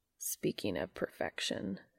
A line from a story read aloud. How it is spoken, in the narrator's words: he muttered